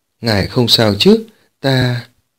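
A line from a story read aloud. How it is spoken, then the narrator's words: Smiling, welcoming. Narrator (Vietnamese): Điếm Tiểu Nhị mỉm cười chào đón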